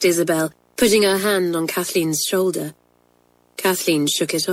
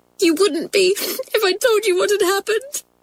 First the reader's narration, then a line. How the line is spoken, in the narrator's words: sobbed Kathleen